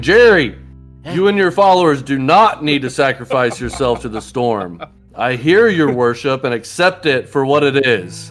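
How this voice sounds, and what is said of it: Booming, very loud character voice. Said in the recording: “his voice is booming through the windows three times as loud as his normal loud voice”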